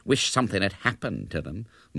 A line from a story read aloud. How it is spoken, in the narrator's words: muttered Hubert darkly